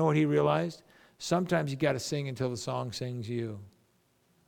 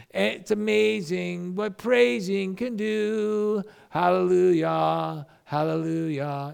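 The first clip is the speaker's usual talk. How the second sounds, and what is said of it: Sung lines in put-on Korean accent. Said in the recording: “he had a weird Korean accent.”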